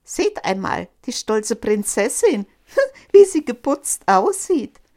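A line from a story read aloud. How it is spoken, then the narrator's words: Mocking laughing shouts. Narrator (German): riefen sie und lachten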